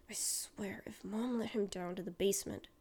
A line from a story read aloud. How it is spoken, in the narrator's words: Mike mutters